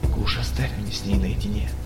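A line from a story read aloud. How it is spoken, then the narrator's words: Near-whisper, gloomy hunter. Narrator (Russian): почти шепотом попросил угрюмый охотник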